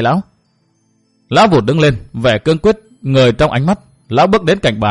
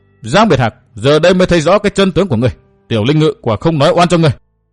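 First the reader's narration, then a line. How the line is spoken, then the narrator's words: Shouted. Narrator (Vietnamese): quát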